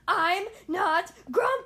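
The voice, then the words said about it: Shouting. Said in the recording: “Shouted Jim”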